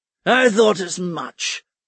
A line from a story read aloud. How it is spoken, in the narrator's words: Stike grunted